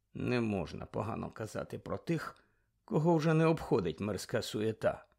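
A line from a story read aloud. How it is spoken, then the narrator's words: Muttering. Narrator (Ukrainian): пробурмотів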